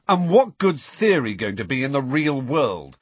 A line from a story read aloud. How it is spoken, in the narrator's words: said Harry loudly